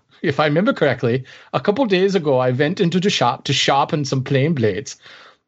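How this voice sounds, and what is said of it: Put-on German accent. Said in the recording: “Am I offending all of Germany at this point right now? ... I don't know where that accent just went.”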